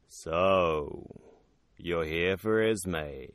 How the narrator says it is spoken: he asked, his voice deeper than an ocean trench

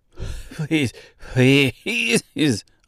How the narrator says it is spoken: another gasp

